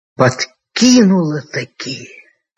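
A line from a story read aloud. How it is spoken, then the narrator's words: Angry, through gritted teeth. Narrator (Russian): со злобой процедил он сквозь зубы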